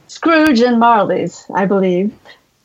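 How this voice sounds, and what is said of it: Convincing put-on accent. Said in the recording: “that's a very good accent. Way better than mine.”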